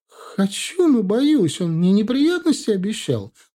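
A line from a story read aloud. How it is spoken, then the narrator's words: Tearful whiny female voice. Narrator (Russian): плаксивым голосом ответила она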